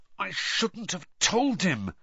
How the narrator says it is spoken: Harry said furiously

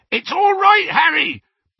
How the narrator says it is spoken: bellowed Hagrid, now thrown flat onto his back by the surge of speed

